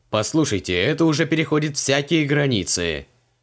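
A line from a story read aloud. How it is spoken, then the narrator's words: Indignant raised voice. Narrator (Russian): возмущенно повысил голос подозреваемый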